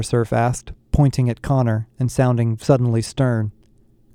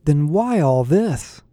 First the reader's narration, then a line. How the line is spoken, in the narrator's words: I asked, desperately